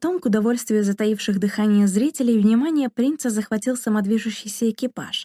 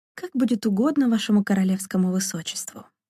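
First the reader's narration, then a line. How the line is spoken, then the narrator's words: Muttered. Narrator (Russian): пробормотала Дарина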